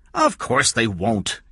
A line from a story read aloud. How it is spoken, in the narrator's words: King said sharply